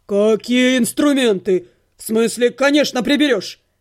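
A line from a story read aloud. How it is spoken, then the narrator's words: Barking snap. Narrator (Russian): рявкнул полугном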